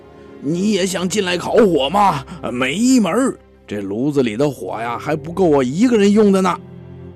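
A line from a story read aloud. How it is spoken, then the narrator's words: Shouting from indoors. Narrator (Chinese): 卢布就在屋里喊起来了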